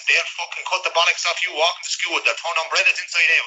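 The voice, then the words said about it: Strong, very specific regional accent. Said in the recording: “accent really helped. Yeah. It's a very specific accent”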